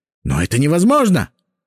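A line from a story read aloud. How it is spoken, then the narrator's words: Rector exclaiming. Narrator (Russian): воскликнул ректор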